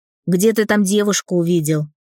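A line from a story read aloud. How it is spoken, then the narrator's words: Angry smirk. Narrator (Russian): зло усмехнулся Дэн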